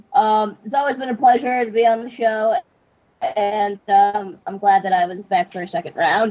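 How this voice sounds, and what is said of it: Sick, weird-sounding voice. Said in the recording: “my weird voice. I'm kind of a little sick.”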